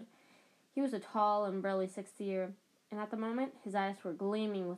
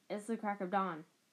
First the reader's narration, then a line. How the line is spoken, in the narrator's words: Harry croaked